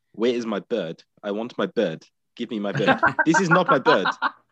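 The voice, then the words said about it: Imitated accent of a film character. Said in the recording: “Your accent is just perfect.”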